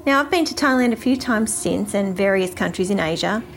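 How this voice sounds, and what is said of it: Australian accent. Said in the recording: “excuse the Australian accent. I know it can be a little bit hard to understand ... your delightful Australian accent”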